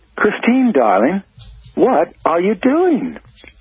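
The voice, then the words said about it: Silky British accent. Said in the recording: “She asked in her silky British accent.”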